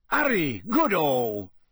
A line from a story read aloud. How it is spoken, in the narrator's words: said Bagman happily